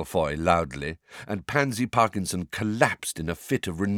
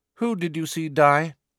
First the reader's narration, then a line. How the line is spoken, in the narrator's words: she asked, her tone indifferent